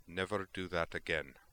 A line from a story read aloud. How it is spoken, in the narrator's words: she said flatly